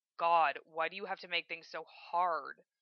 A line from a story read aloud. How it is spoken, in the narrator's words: Evan groans